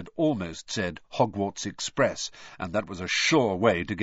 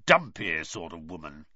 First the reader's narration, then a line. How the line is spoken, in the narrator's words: he growled finally